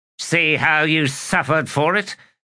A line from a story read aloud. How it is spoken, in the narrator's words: Ebron snapped